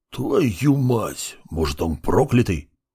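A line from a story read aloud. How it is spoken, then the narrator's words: Hissed. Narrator (Russian): шипел Сид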